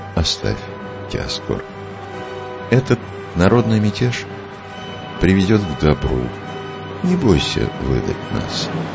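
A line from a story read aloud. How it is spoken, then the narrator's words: Calm. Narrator (Russian): Иоанн спокойно сказал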